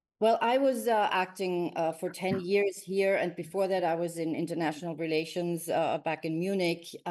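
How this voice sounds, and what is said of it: Speaks with a native German accent. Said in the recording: “You've got the right accent that I lack”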